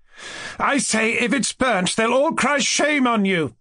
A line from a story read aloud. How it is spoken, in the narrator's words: Nastasya Philipovna shouted to him